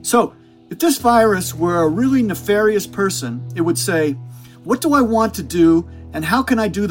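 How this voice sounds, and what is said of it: Weak Brooklyn-accented Tony Fauci impression. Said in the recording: “do his voice because I can't do a good Brooklyn accent ... the wonderful Tony Fauci voice”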